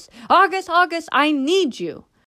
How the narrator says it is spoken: Hattie called out in a loud voice

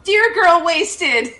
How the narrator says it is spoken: I yell

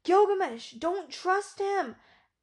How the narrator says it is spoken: Enkidu feared his friend was weakening and called out

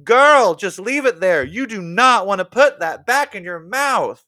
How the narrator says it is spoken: I shouted to the TV

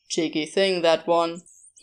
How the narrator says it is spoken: he said

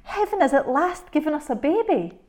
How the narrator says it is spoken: cried the old woman, trembling with joy

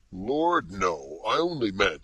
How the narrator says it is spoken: exclaimed, with a faint tinge of impatience

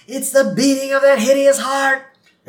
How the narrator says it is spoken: just loses it, and she yells out

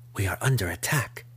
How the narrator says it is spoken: Jennifer breathed to them, her head already pounding with a dull ache

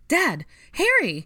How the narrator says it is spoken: Ginny cried

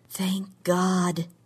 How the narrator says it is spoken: she said under her breath

